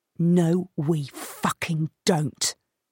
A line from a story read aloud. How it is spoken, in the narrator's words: Niall hisses, spittle flying off his tongue